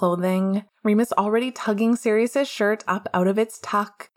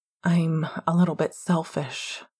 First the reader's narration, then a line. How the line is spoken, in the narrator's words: he whispers